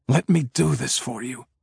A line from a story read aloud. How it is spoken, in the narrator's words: he whispers, trying to hide the tremor in his voice